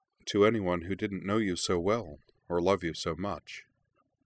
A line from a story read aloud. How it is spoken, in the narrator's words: Anthy said gently